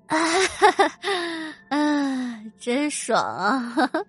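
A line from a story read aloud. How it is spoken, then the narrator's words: Very hoarse voice. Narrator (Chinese): 她用很沙哑的声音说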